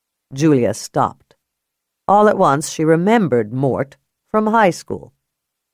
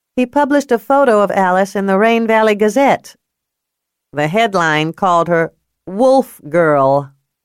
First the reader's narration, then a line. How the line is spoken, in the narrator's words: Peanut said, chewing loudly